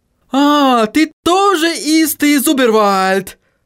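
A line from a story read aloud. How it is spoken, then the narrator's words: Joyful exclamation. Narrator (Russian): радостно воскликнул Отто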